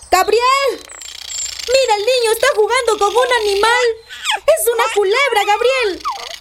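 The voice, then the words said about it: Shouting in alarm. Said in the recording (Spanish): “¡No grites!”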